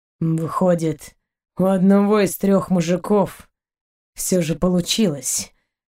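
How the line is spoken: Hollow, muffled voice. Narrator (Russian): глухо проговорил он

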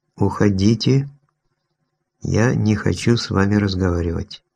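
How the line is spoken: Clipped, emphatic delivery. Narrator (Russian): отчеканила

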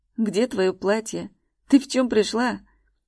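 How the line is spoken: Growled. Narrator (Russian): Прорычал

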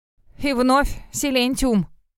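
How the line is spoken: Snorting scoff. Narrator (Russian): фыркнул Целлерт

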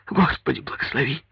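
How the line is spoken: Sniffling, near sobbing. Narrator (Russian): Павел Семенович, втягивая воздух, как бы всхлипывая

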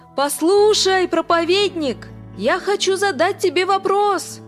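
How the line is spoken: Man shouting. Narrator (Russian): этот человек встал и закричал

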